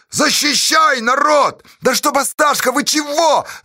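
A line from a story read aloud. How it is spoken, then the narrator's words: Choking, frantic shout. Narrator (Russian): захлебываясь, закричал Никешка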